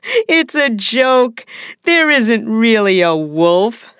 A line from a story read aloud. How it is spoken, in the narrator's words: said the boy, laughing